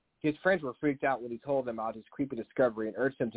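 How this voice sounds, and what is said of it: Usual voice. Nothing is said of it.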